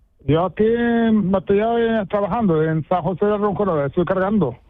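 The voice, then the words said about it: Moroccan accent speaking Spanish. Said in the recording (Spanish): “todavía tienes tú el acento de tu tierra ... De Marruecos ... todavía tienes tú el acento ahí”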